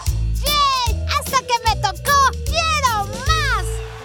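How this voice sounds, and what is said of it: Little girl's voice. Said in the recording (Spanish): “¡Vamos por la voz de niña!”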